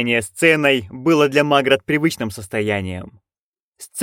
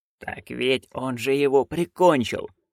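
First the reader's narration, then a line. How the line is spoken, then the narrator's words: Hissing. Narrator (Russian): шипела она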